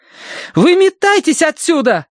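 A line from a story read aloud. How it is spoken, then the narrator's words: Yelling, stomping. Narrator (Russian): заорала Киврин, топая ногами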